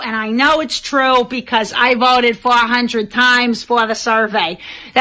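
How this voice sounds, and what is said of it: Boston accent. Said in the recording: “If you're not familiar with the Boston accent, this is what it sounds like.”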